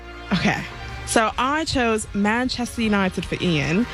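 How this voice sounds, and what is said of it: Put-on British accent. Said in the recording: “doing a British ... accent ... the accent's brilliant ... I'm going to stop with the accent. It's too much.”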